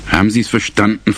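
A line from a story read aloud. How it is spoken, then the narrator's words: Plain. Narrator (German): fragte Smutje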